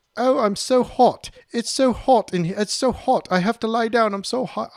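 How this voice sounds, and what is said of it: Poor put-on English accent. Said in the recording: “my English accent sucks”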